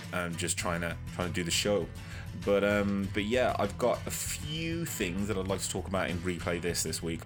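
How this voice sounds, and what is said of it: Strained, worn-out voice. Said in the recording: “my voice isn't the best... sounds a bit messed up from the other night... my voice is pretty much shot”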